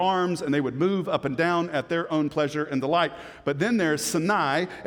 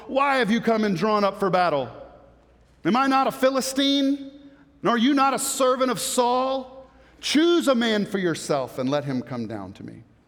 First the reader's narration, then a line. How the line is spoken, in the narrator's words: he stood and shouted to the ranks of Israel